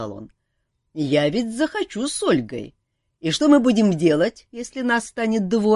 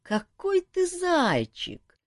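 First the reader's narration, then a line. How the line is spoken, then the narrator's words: Sad sighing inner voice. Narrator (Russian): печально вздохнул внутренний голос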